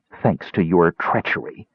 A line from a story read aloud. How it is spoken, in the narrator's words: Kitiara snapped